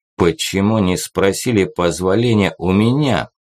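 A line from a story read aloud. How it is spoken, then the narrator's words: Menacing question. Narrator (Russian): грозно вопросил Мустафа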